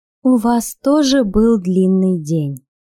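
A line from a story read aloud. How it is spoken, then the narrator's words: Ingratiating, insinuating. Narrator (Russian): вкрадчиво сказала Анна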